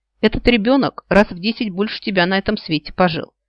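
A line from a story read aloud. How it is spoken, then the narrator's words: Snorting. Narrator (Russian): хмыкнул Нил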